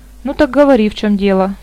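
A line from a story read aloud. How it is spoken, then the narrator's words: Gloomy, grudgingly indulgent. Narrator (Russian): мрачно сказал верховный маг, словно уступая нетерпеливому ребенку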